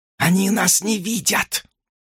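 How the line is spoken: Whisper. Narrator (Russian): прошептала она

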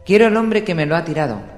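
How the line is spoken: Shouted. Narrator (Spanish): gritó

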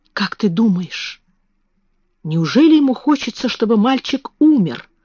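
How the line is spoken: Whisper. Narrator (Russian): прошептала Мэри

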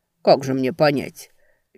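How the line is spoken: Laughing. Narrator (Russian): Венка рассмеялся

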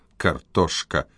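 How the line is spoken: Muttered. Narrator (Russian): пробормотал Седрик

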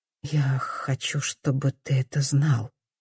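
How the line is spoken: Quiet. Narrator (Russian): тихо говорит она

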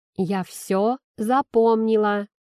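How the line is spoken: Loud, pausing between words. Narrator (Russian): говорю громко, делая паузу между словами

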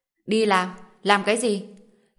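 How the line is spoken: Cold sarcasm. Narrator (Vietnamese): Lý Hạo lạnh lùng châm biếm một câu

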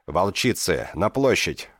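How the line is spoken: Roar. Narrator (Russian): взревела она

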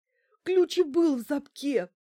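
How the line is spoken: Sobbing into phone. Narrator (Russian): прорыдала в трубку Банкина

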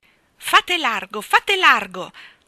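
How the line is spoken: Self-important exclamation. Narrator (Italian): esclamava con importanza

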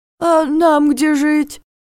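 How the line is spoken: Bewildered, plaintive. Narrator (Russian): Растерялся второй, и голос его при этом звучал так жалобно

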